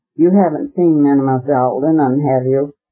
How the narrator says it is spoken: she responded coldly, and immediately added

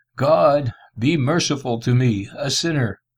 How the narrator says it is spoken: conscious of the fountain of corruption within, and cried

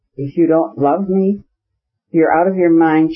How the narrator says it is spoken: she cried, turning crimson with vexation

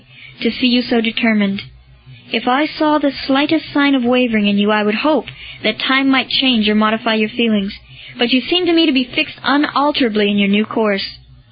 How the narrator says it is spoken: said Lucullus sadly

